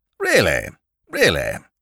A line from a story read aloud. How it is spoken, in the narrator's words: chirped Sir Thomas amiably